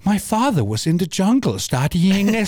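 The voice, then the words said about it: Imitates another person's accented voice. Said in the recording (Danish): “Hun snakker ikke med den accent. Jeg ved ikke, hvorfor hun fik den accent.”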